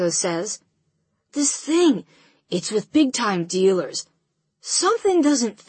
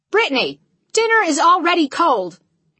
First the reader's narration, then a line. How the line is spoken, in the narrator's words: my mother yells from the kitchen window